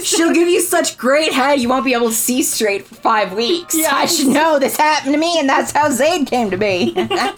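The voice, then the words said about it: Gravelly character voice. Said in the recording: “do the voice ... It's so gravelly it hurts my throat.”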